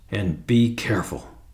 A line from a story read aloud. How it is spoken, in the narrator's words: hissed Julius